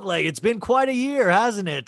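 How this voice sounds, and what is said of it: Trevor Noah impression. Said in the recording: “did you just do his accent?”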